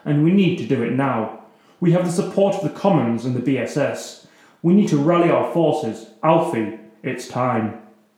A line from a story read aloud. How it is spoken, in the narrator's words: Victoria finally broke the silence, her voice firm